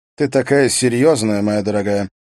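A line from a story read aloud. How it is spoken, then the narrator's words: Calm. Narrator (Russian): произнес он спокойно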